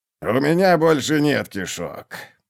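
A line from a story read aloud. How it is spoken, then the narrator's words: Moaning groan. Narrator (Russian): простонал скрипач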